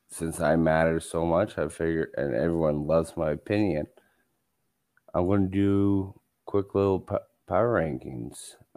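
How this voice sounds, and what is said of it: Flat monotone voice. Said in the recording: “in my one tone voice that I talk with all the time”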